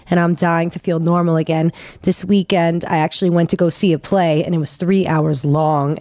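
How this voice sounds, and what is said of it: Sick, hoarse voice from bronchitis. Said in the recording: “I now have acute bronchitis ... I'm suffering. Okay, you can hear that in my voice.”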